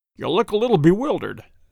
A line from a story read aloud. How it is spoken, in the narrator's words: said he